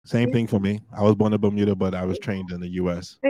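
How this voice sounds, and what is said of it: American accent. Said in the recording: “I have the American accent.”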